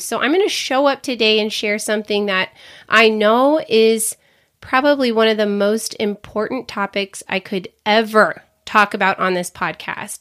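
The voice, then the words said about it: Slightly off, unwell-sounding voice. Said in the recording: “finally feeling better after being sick for the last, 11 days ... I got super sick ... You might be able to tell my voice is a little bit weird today”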